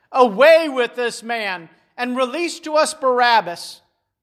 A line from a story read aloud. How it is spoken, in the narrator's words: they cried all out together